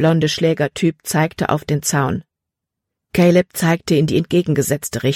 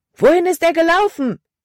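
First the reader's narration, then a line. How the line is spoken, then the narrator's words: Loud shout. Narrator (German): rief Caleb laut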